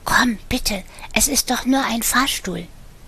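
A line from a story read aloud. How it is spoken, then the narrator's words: Whispered into ear. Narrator (German): flüsterte in sein Ohr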